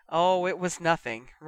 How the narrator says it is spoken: laughed

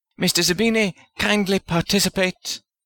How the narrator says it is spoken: Smythe Wellington snapped

